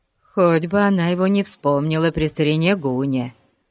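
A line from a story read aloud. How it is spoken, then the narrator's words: Gloomy. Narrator (Russian): мрачно добавил Пип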